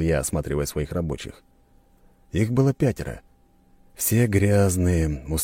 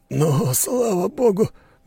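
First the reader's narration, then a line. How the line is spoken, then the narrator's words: Relieved exhale, worker. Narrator (Russian): выдохнул один из рабочих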